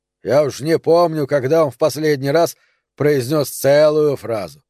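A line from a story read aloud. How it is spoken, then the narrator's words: Grumbling. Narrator (Russian): пробурчал Нери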